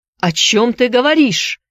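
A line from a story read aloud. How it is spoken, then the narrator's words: Shouting. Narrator (Russian): закричал Филипп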